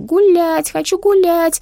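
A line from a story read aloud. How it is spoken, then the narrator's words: Whining shrill child's scream. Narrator (Russian): карапуз хныкал и пронзительно кричал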